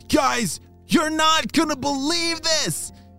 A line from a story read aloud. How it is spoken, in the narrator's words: shouted Arlo